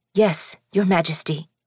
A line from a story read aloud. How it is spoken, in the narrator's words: the Eastoffs chorused back at him breathlessly